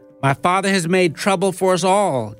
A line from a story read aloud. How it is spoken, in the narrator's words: Jonathan exclaimed